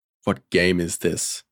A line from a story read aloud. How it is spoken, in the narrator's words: he growled